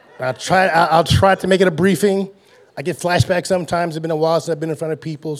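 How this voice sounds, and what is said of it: Hoarse voice. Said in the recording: “My voice getting a little bit of hoarse too ... My voice a little hoarse too, because the worship up there was so strong ... So now I'm hoarse.”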